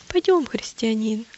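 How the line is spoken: Gentle, affectionate. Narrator (Russian): ласково сказал

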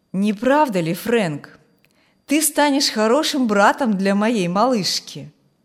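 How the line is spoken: Laughing. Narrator (Russian): Смеясь

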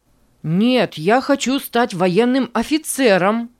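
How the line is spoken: Loud declaration. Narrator (Russian): громко заявил Коля

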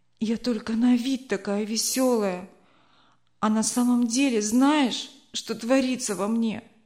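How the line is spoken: Trembling female moan. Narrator (Russian): Голос Марины дрогнул, и она простонала

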